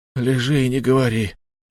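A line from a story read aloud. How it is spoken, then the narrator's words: Lifeless voice. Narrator (Russian): мертвым голосом произнес Кван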